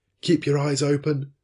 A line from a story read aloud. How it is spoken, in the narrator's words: called out the sailors